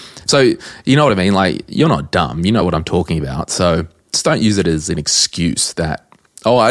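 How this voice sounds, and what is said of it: Usual voice. Nothing is said of it.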